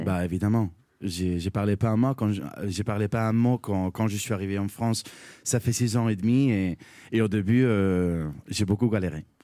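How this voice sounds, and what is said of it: Non-native accent speaking French. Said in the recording (French): “mon accent il est pas parfait”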